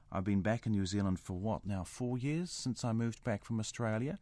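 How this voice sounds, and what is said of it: New Zealand Kiwi accent. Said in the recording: “I had a Kiwi accent. I knew all about the fush and chups thing. But the thing that happens with our A's, there, you just heard that. I said, happens.”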